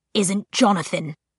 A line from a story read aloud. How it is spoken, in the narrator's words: Luke hissed